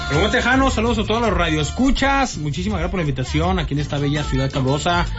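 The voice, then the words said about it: Mexican Comarca Lagunera regional accent. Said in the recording (Spanish): “No suenas como de Guadalajara, suenas más a como la comarca lagunera”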